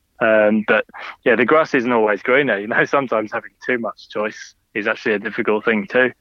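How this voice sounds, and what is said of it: Speaker's own noticeable accent. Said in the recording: “as you can hear by my accent”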